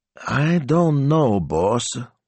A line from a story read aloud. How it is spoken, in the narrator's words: he said slowly